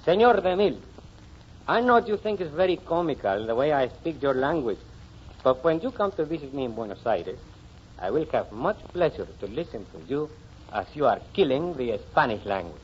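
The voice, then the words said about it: Argentine accent speaking English. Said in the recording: “the way that same Argentine sounds when he speaks English ... Sounds very authentico.”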